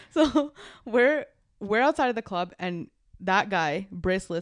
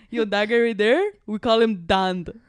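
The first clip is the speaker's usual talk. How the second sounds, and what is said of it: Imitates another person's voice. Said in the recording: “my Surrey impression.”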